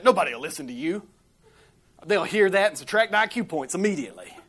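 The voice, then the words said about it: Mild, watered-down Floridian accent. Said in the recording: “Listen to your accent. ... It used to be much stronger than it is today. This is a much watered down version that you're hearing. ... You've been a Floridian your whole life.”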